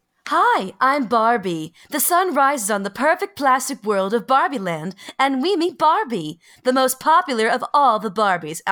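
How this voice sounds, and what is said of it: Playful Barbie character voice. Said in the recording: “Should I read this in my finest Barbie voice?”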